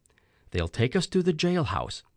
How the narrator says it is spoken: said calmly

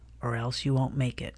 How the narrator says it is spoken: In a low voice, said

